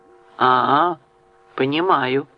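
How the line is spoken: Reasoning, thoughtful tone. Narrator (Russian): рассудительным тоном произнес Оливер

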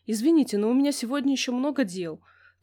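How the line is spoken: Hurried. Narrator (Russian): торопливо выдала Соня

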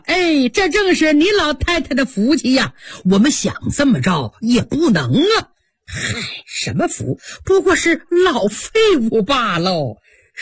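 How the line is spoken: Laughing. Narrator (Chinese): 刘姥姥笑了

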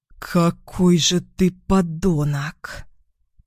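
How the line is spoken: Hiss through clenched teeth. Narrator (Russian): прошипела она сквозь стиснутые зубы

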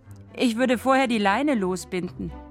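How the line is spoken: Giggling. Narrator (German): meint Sina kichernd

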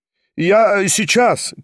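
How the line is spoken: Shouted from another room. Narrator (Russian): крикнул из другой комнаты Степан Трофимович

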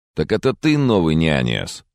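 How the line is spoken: Mocking question. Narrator (Russian): насмешливо спросил он

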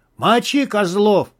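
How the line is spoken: Beast yelling from behind. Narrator (Russian): заорал позади зверь

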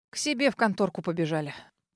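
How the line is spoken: Disgruntled grumble. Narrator (Russian): проворчал друг, недовольный итогом

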